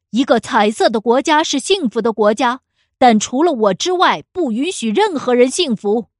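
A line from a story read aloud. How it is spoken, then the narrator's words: Loud angry roar. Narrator (Chinese): 总统……大声的咆哮着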